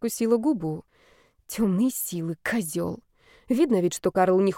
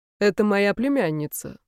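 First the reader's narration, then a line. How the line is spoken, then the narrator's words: Dry, curt. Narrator (Russian): сухо сказал Карл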